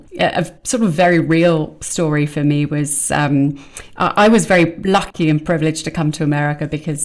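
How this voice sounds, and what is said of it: British accent. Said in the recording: “being a Brit moving to America ... people notice right away my accent”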